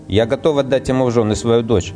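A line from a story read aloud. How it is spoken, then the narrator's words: Plain. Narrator (Russian): ответил Махарана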